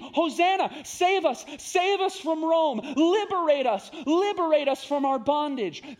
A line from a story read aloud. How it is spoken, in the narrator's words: And so they scream